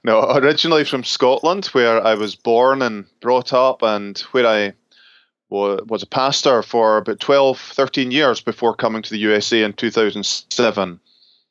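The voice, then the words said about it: Scottish accent. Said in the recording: “he's Scottish, so everything he says sounds amazing ... the beautiful accent”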